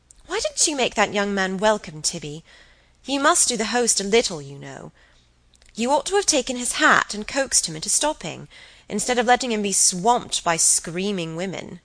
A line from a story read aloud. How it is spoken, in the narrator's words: she said rather sharply